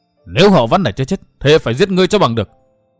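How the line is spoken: Frenzied furious roar. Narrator (Vietnamese): hắn phùng mang trợn mắt, điên cuồng gầm rống lên

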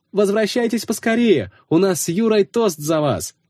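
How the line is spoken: Shouted. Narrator (Russian): крикнула Оксана

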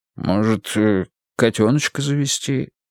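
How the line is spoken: Hesitant father's suggestion. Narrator (Russian): неуверенно предложил папа

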